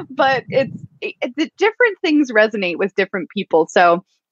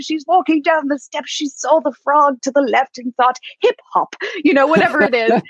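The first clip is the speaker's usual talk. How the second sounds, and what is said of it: Poor David Attenborough impression. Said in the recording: “That was a very poor impersonation of Sir David.”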